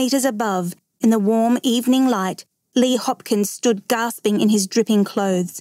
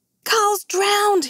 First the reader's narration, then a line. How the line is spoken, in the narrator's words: he cried